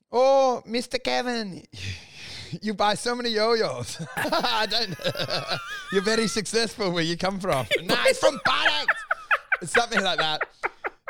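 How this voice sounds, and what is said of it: Put-on Balinese accent. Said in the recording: “I tried the Balinese accent ... I haven't heard your Balinese accent ... It's someone in Bali”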